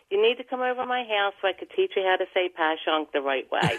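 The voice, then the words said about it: Thick Philadelphia accent. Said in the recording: “the thickest Philly accent”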